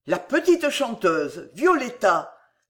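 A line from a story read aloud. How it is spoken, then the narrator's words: Exclaiming. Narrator (French): s'écria Croas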